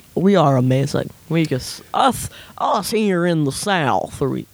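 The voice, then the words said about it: Mock Southern accent. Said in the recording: “put on the Southern accent like that ... You're making fun of yourself.”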